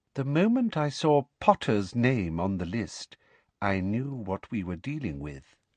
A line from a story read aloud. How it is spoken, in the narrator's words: she said softly